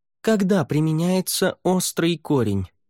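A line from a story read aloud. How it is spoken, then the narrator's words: Calm. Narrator (Russian): Лаверн спокойно ответил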